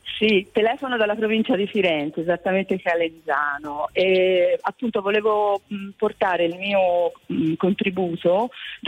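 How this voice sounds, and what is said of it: Slight Tuscan accent. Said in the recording (Italian): “Toscana. ... Sì, si sente dall'accento. Un pochino.”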